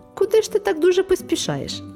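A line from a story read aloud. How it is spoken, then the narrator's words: Cheerful question. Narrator (Ukrainian): запитав весело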